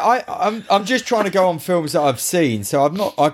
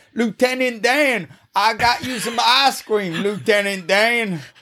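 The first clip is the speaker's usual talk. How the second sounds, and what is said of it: Poor Forrest Gump impression. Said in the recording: “That is the worst Forrest Gump impression anyone will ever do. ... I thought that was Boss Hogg. ... it's getting better?”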